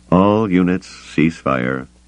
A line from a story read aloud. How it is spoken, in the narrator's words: he said, his voice tired